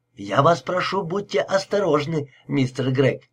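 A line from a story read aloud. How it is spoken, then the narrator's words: Worried, agitated. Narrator (Russian): произнес Кендрик взволнованным голосом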